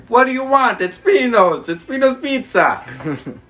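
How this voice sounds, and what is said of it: Imitated Italian accent, shouting. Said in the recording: “he's straight from Italy, straight off the boat. And he's in there with his accent answering”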